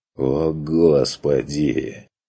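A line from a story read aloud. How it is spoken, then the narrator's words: Angry groan. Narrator (Russian): Простонал Курт зло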